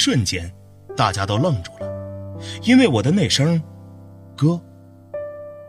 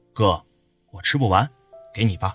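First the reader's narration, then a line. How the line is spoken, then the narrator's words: Calm. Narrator (Chinese): 平静地说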